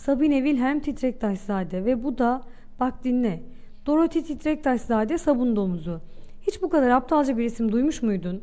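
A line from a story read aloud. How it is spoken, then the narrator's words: Laughing. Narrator (Turkish): Güldü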